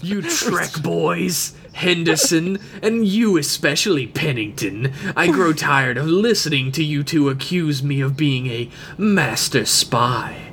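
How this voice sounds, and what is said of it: Evil-sounding character voice. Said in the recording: “Listen to your voice. It's evil as fuck. ... I am doing the voice for him”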